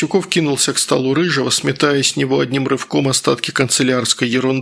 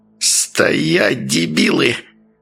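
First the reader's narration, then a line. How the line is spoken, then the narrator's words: Hissing. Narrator (Russian): Прошипел Васюков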